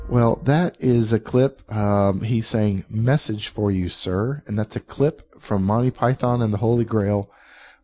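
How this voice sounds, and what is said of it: Voice affected by a cold. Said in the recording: “forgive my voice here. I've got a little bit of a cold,”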